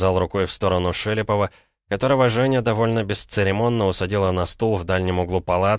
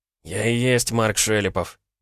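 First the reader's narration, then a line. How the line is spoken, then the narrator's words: Muttering. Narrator (Russian): буркнул журналист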